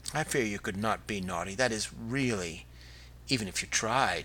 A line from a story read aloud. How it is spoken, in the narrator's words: she said scornfully